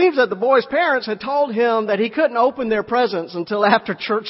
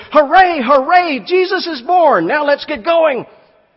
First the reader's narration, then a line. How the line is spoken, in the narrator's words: this four-year-old boy broke out at the top of his lungs and said